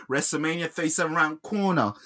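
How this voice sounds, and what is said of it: Imitated voice sounding Italian. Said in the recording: “I can't do his voice. I sound like an Italian.”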